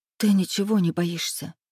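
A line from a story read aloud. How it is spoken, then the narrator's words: Halting whisper. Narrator (Russian): Сбивчиво прошептала я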